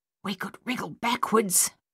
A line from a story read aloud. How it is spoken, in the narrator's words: Coralie whispered